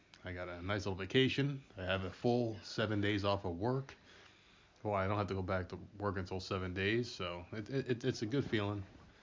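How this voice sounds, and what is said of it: Congested, stuffy-sounding voice. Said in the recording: “My voice may sound a little weird. To me, it does, at least, because my head's a little cloudy ... the stupid sinuses are just going out of control ... I may sniffle a lot. I may blow my nose a few times”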